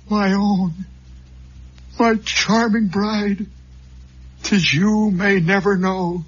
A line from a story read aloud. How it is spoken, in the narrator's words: cried